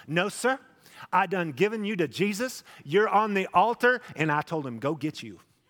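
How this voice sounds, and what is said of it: Imitated Oklahoma accent. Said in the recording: “My grandma was from Oklahoma. She had this great accent.”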